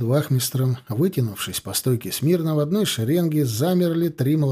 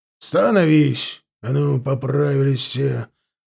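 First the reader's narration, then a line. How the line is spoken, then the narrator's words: Barked command. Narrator (Russian): рявкнул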